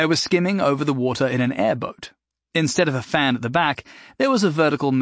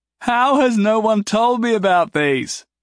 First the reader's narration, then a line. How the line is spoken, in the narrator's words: Jason called out joyously